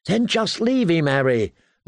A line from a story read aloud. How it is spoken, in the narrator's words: Lummy pleaded